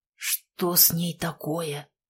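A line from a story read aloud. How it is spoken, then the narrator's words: Hoarse wheeze. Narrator (Russian): прохрипел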